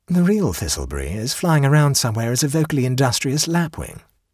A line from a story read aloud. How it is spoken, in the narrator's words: said the Duke calmly